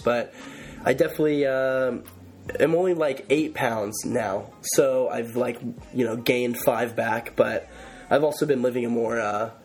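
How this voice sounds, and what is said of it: Sick-sounding voice. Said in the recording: “I am sick right now, if you couldn't tell by my voice”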